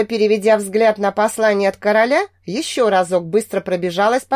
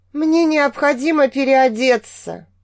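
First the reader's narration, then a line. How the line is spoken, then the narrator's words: Tired sigh. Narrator (Russian): устало вздохнула я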